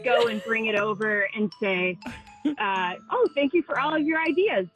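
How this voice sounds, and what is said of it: Slight Wisconsin accent. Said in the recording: “Whatever little touch of that accent is that you got working just came out ... Oh, Wisconsin.”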